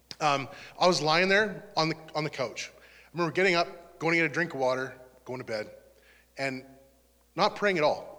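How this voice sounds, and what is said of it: Emotional, choked-up voice. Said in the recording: “sorry, I don't know why I'm getting emotional.”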